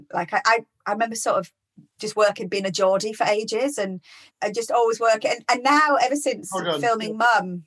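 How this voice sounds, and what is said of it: General northern English accent. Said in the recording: “Probably just sound a little bit generally northern... You sound like you're from Chester, let's say.”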